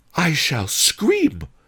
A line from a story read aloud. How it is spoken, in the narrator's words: cried Pretty Ping